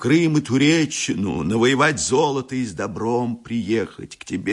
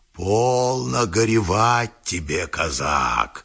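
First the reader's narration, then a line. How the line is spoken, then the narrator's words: Booming bass voice. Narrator (Russian): загремело что-то басом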